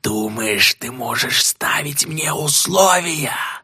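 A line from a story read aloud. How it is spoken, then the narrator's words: Hissing. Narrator (Russian): зашипел Моргудец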